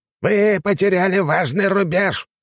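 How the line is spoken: Old man shouting. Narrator (Russian): закричал старик с пышной белой бородой до пояса

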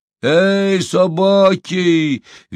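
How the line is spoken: Cheerful shout. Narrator (Russian): весело кричал

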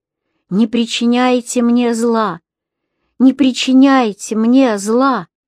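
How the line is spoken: Fearful pleading. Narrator (Russian): В страхе он взмолился

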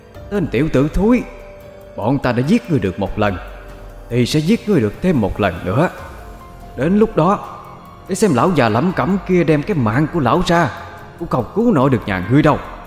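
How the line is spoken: Harsh, gritted voice. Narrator (Vietnamese): gằn giọng

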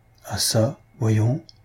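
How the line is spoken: Anxious murmur. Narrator (French): murmura la pauvre fille anxieuse

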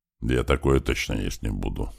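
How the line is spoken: Grumbling. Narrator (Russian): буркнул Большой

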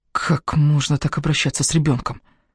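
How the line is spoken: Hissed through teeth. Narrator (Russian): Мари прошипела сквозь зубы

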